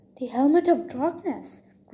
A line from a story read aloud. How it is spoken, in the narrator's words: Grover gasped